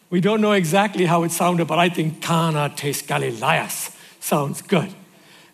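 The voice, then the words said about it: Irish accent. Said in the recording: “albeit with an Irish accent”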